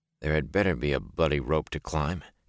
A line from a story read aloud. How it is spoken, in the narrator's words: he whispered